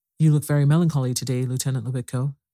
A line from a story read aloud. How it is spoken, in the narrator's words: he said